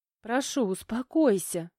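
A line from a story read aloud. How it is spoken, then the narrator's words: Pleading young woman. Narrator (Russian): взмолилась девушка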